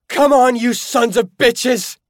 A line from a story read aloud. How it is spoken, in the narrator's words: I screamed